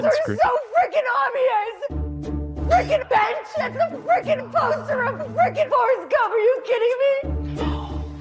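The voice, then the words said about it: Screaming in frustration. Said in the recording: “she's screaming about, benches right now ... She's screaming.”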